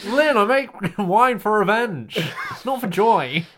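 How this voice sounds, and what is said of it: Poor Alan Partridge impression. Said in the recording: “It sounds like something Alan Partridge would say ... Bad impression.”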